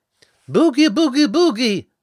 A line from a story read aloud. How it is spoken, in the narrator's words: shouted Rose again, but not so confidently this time